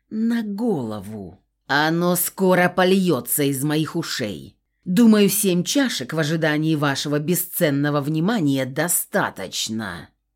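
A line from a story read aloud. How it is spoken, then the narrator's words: Growled. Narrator (Russian): прорычал Баринов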